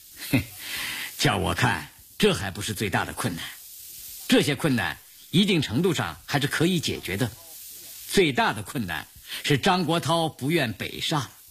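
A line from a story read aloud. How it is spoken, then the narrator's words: Wry bitter smile. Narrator (Chinese): 张闻天的脸上现出苦笑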